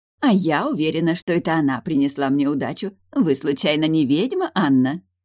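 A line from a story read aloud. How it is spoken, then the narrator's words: Conspiratorial, then loud laugh. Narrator (Russian): спросила Лина заговорщицки, а затем громко засмеялась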